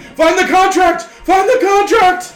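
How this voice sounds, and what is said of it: Screaming. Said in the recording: “I'm screaming”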